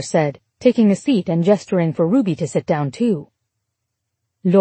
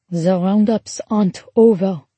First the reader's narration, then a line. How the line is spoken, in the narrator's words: Laure said solemnly